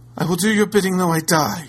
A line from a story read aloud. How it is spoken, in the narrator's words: replied the lady desperately